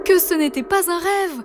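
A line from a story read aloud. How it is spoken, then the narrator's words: Exclaiming in unison. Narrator (French): s'exclamèrent les deux jumeaux en cœur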